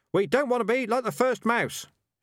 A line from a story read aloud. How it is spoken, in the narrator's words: shouted the rats